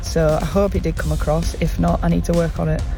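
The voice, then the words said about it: Halifax accent. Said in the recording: “I can hear the Halifax accent”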